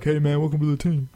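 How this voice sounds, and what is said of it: Bad LeBron James impression. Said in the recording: “terrible impression of LeBron”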